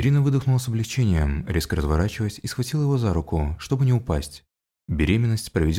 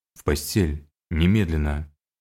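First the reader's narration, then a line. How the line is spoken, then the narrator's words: Stern. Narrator (Russian): строго произнес Уильям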